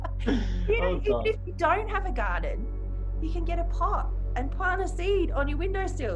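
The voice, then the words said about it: Thick Australian Adelaide accent. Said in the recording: “I love the way you say plant, because you sound so Adelaidean ... this Australian accent is so thick”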